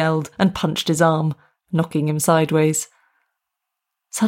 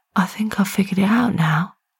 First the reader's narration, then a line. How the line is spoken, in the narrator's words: she whispered